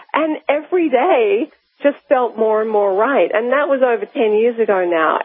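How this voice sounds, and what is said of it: Australian accent. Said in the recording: “my home country is Australia, if you can't tell by my accent”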